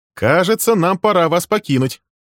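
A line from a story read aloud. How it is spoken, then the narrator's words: Cheerful declaration. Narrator (Russian): весело заявил он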